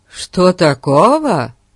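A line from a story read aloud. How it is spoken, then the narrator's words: Exclaiming. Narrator (Russian): воскликнул Фати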